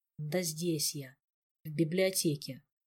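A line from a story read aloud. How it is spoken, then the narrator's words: Muffled, reluctant voice behind door. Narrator (Russian): из-за плотно закрытой двери библиотеки глухо и очень неохотно донеслось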